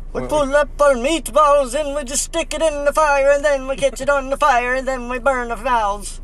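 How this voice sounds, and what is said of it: Mock Swedish Chef accent. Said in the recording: “every accent we do is going to be... It turns into Irish... It's just Irish, Scottish, and it just fucking mixes together eventually... I was going for Swedish, but I couldn't do it... Swedish Chef.”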